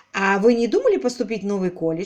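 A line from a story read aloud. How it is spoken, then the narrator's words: Plain. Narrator (Russian): спросил он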